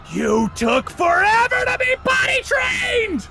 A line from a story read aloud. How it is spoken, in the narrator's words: The trees begin screaming, they shout